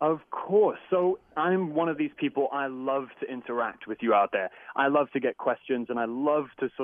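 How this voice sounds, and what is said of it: Usual voice. Nothing is said of it.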